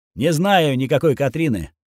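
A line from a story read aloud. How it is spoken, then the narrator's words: Dry reply. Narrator (Russian): сухо ответил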